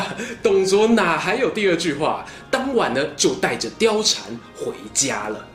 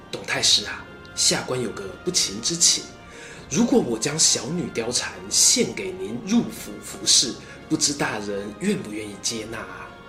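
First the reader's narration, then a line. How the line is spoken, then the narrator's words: Low voice. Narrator (Chinese): 低声说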